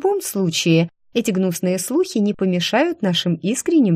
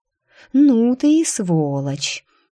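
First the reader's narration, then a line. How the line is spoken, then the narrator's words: Admiring drawl. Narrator (Russian): Даже с некоторым восхищением протянула я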